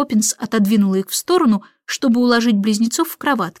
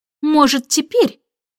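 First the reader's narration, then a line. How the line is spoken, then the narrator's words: Angry snap. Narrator (Russian): сердито бросила она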